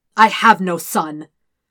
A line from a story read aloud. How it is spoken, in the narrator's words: Ozai snarls